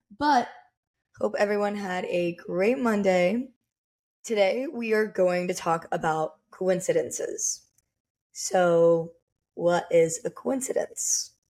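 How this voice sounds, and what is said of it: Raspy, cracking voice. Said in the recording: “I am going to be cracking my voice a lot, and it's because I just recovered from a cold and my voice is already raspy as it is ... I literally sound like I'm a boy going through puberty right now.”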